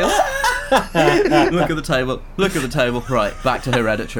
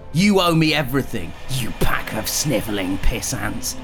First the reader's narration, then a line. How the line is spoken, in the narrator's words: he hissed like a snake with bones and a coat